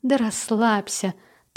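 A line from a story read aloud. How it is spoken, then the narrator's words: Interrupting with laughter. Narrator (Russian): Та перебила его и начала смеяться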